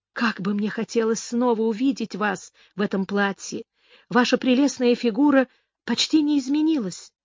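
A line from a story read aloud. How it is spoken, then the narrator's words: Nervous giggling. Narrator (Russian): нервно хихикнула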